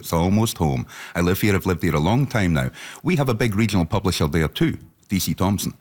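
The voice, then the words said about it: Scottish accent. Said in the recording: “you hear my accent. I'm from Dundee in East Central Scotland”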